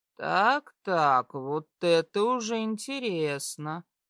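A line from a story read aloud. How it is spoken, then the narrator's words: Slow speech. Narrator (Russian): говорит медленно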